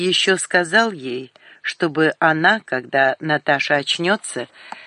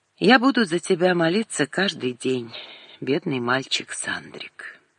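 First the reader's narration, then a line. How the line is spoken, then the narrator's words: Calm, spoken aloud. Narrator (Russian): подумала вдруг спокойно Светлана и сказала вслух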